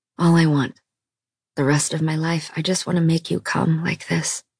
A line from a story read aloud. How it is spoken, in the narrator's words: he whispered